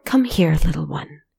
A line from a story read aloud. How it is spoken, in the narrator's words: whispered